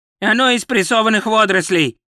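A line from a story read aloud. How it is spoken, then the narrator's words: Barked. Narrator (Russian): рявкнул главный гостеприимец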